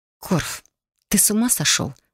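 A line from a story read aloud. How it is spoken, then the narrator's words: Hissed. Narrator (Russian): прошипел я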